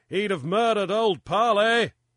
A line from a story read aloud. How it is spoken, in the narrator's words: Grief yelled back